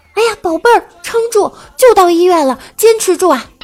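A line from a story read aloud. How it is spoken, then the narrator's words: Sudden shout. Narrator (Chinese): 突然大叫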